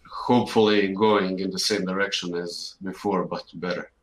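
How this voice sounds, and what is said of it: Eastern European accent. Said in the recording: “it doesn't sound like you're American... I'm Eastern Europe, Croatia.”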